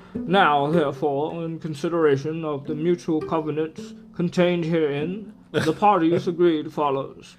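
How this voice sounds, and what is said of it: Put-on British accent. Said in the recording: “I should do, like, a British accent since I'm reading a document ... it's actually kind of hard to do”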